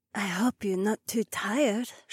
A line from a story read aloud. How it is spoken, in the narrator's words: she whispered